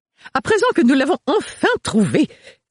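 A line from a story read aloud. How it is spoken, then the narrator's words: Excited. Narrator (French): reprit Agathe d'une voix toute excitée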